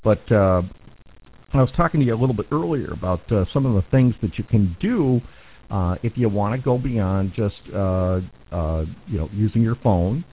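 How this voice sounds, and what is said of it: Hoarse, fading voice. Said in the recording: “I'm kind of losing my voice tonight ... now I'm going to start getting hoarse.”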